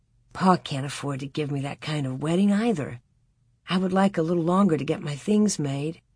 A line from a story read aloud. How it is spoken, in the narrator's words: said quietly